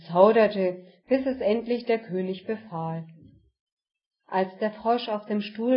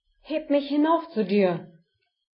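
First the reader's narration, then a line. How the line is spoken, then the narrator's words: Calling out. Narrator (German): rief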